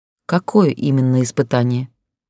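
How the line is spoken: Calm question. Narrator (Russian): спокойно спросила я

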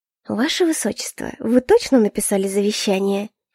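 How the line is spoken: Silky, insinuating question. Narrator (Russian): вкрадчиво уточнила я

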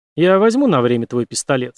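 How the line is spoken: Plain. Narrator (Russian): сказал он

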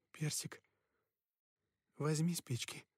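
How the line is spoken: Quiet but firm. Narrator (Russian): негромко, но твёрдо сказала

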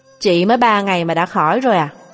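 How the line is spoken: Cold indifferent question. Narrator (Vietnamese): Tề Thịnh tiếp tục hỏi bằng giọng lạnh nhạt

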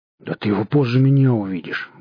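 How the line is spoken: Drunkard's mutter. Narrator (Russian): буркнул небритый мужичок с лицом пропойцы

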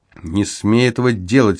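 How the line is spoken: Mother's sudden angry hiss. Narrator (Russian): сердито шикнула вдруг мама

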